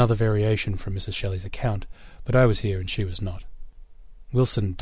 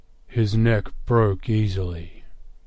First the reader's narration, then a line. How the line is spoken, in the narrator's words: growled